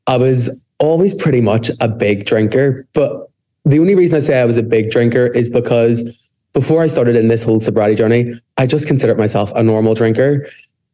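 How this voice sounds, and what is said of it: Belfast Northern Irish accent. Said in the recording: “I'm from Belfast, if the accent didn't give that away already.”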